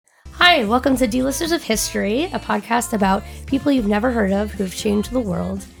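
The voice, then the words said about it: Sick, rough voice. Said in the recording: “on the mend, but still a little bit sick. So please forgive my voice. I've got cough drops.”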